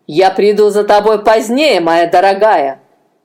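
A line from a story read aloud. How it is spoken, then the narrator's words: Spiteful. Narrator (Russian): злобно сказал один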